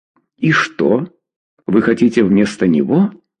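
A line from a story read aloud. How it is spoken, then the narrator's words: Plain. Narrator (Russian): спросила Клавдия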